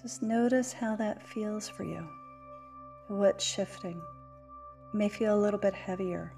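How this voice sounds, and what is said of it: Lower, softer calm voice. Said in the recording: “My voice gets lower. I get softer ... versus the kind of higher pitch that I can run when I'm excited”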